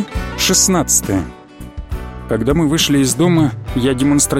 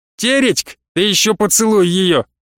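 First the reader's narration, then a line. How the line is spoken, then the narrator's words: Smirking shout. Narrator (Russian): с ухмылкой крикнул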